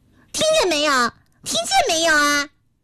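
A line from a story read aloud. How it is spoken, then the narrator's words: Shouting. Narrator (Chinese): 二丫头立刻冲摊子姐姐喊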